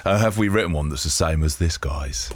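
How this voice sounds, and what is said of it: Imitates another person's voice. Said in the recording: “trying to do a Mick Jagger impression ... That was almost there ... That was not even close to it”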